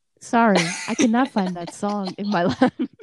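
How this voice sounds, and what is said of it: Alexa voice assistant impression. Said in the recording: “That was a good Alexa impersonation.”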